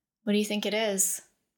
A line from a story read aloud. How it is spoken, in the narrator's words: Shale asked nervously